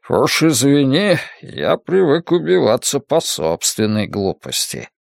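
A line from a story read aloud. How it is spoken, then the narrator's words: Mutter. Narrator (Russian): пробормотал падла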